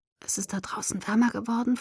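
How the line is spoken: Whispering. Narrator (German): flüsterte

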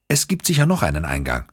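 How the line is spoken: Plain. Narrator (German): sagte Vittoria

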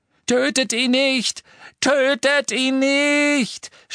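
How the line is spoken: Shouting. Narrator (German): schrie Malfoy Crabbe und Goyle zu

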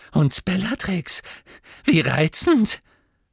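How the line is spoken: Squeaky voice. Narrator (German): sagte er mit quiekender Stimme

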